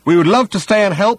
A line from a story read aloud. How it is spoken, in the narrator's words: shouted Ford